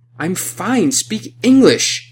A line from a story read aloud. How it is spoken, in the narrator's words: I was shouting